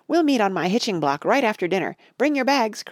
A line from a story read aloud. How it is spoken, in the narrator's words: cried, as she flew